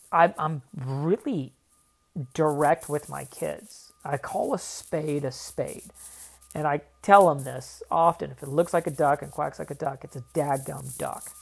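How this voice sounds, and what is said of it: Southern drawl. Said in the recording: “That's my southern drawl coming out of me, saying dadgum. And I say y'all a lot too.”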